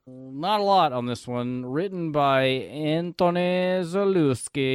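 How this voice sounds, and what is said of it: Usual voice. Nothing is said of it.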